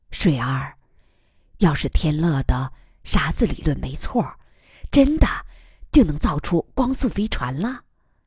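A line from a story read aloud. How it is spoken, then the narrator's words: Quiet question. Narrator (Chinese): 她小声问于乐水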